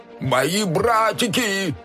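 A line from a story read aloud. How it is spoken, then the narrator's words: Lizard screaming. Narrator (Russian): Завопил ящер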